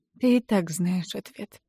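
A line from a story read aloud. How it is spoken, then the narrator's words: Quiet. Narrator (Russian): тихо произношу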